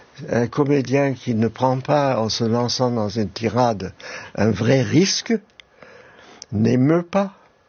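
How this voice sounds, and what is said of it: Slight German accent in French. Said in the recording (French): “mon petit accent allemand, comme je navigue entre deux langues”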